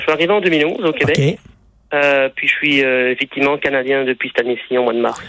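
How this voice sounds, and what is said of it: French with a non-Québécois accent. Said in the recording (French): “à votre accent, je vois que euh, vous êtes un néo-québécois”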